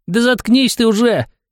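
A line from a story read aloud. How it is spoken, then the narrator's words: Squeaky falsetto. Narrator (Russian): пропищал фальцетом Рорт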